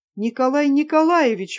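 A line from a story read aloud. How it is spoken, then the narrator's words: Exclaimed. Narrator (Russian): воскликнул барон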